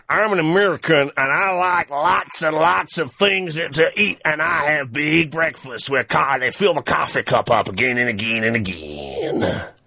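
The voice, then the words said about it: Put-on American accent, fairly good. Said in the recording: “That was actually pretty good ... the American accent ... he sounds sort of American in the middle ... your American accent was good”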